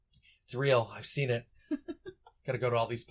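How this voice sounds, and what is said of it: Usual voice. Nothing is said of it.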